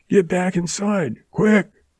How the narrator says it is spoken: he shouted at her

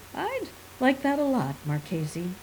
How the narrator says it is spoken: he said warmly

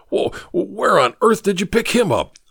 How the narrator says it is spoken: gasped Ricketts

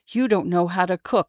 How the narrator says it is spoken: whispered

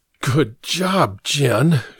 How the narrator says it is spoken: muttered

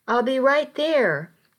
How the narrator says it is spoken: I called out

